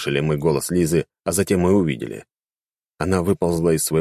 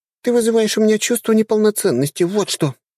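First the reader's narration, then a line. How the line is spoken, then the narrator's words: Sad sigh. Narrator (Russian): Грустно вздохнула Оля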